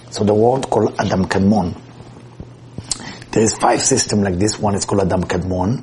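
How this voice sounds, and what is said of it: Non-native accent, world sounds like word. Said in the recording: “sometimes with my voice or with my accent, you might think I say word is WORD, and I want you to understand I'm talking about WORLD”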